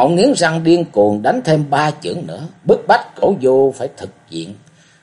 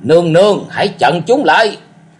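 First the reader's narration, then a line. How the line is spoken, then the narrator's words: Roaring. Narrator (Vietnamese): Cổ Du gầm rống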